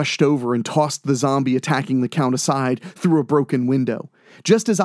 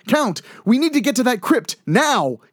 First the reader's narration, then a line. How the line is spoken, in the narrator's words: yelled